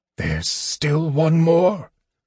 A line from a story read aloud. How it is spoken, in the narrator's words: Raistlin gasped